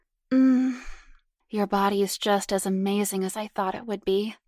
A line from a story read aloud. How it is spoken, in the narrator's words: Karen cooed hotly